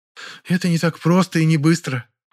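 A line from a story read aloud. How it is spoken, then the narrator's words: Sigh. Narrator (Russian): вздохнула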